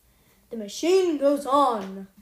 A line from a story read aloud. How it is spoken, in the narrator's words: I cried deeply